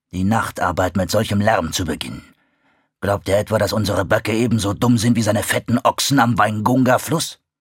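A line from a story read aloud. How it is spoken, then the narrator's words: Father wolf growling. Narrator (German): knurrte Vater Wolf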